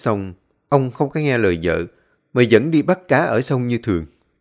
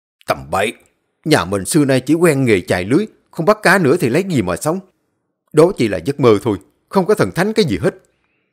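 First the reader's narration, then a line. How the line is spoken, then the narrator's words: Man's loud shout. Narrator (Vietnamese): Người đàn ông quát lớn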